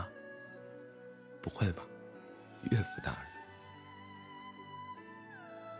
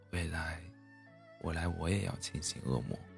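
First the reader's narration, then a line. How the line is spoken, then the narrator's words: Sleepy child murmuring. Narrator (Chinese): 女儿睡前最后还在喃喃道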